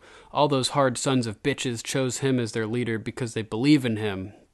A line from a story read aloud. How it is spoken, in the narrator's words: Davos says